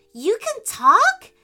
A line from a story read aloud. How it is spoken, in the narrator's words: exclaimed